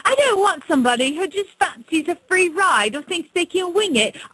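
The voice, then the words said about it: Bad put-on English accent. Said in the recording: “This is just awesomely English... even in my bad accent”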